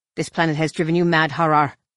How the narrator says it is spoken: Nom Anor snapped

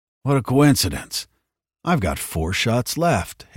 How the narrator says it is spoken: Hicks chuckled

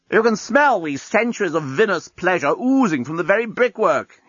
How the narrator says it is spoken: he shouted up

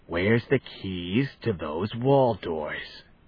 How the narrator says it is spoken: Then, menacingly

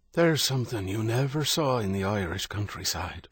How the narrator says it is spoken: Father Michael said, his voice low

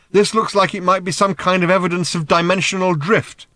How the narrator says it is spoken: shouted Ford

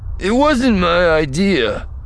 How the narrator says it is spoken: groaned

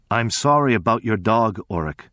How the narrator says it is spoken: said in his grave, quiet voice

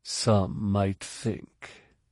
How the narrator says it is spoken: he said quietly

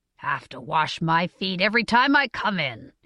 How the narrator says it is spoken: he grumbled

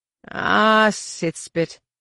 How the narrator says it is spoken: grumbled

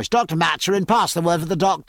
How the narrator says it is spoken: raising his voice

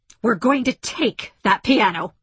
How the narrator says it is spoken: snapped Margaret

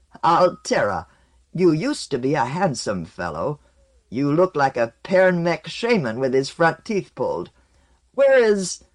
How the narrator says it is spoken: he cackled a bit and said

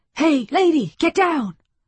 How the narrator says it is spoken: Off to the left, someone shouted

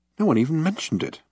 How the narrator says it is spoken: muttered Arthur irritably

